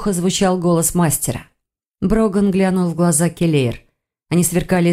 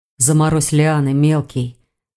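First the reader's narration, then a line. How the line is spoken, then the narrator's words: Hoarse command. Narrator (Russian): хрипло велел Рейн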